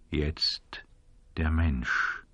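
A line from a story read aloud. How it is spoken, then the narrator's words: Man speaking quietly. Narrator (German): sagte der Mann in Schwarz leise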